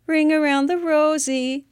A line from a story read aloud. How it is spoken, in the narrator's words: in a little girl voice